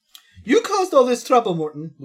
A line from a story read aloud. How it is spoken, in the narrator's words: Luigi shouts